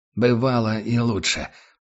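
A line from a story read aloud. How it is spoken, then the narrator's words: Hoarse rasp. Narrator (Russian): прохрипел капитан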